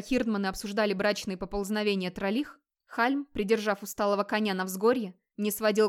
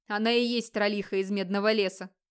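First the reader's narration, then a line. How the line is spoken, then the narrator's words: Chuckling reply. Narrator (Russian): хохотнул в ответ другой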